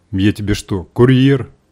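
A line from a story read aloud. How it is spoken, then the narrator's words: Unfriendly old woman's grumble. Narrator (Russian): недружелюбно буркнула старуха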